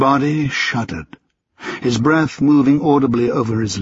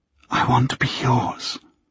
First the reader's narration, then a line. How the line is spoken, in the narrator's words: she whispered